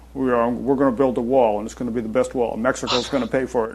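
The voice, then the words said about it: Imitates another person's voice. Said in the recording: “I'm pretty impressed with your imitation right there”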